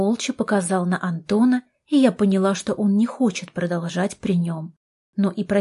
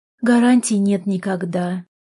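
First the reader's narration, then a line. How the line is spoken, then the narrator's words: Sigh. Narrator (Russian): вздохнула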